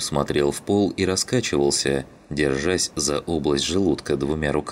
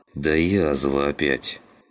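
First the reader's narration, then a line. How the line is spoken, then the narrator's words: Through gritted teeth. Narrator (Russian): Процедил сквозь зубы Клим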